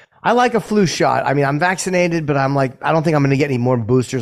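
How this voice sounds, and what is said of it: Raspy, slightly sick-sounding voice. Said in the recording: “I sound a little icky, maybe... slightly fluish... my voice is a little sexier than normal. Raspy.”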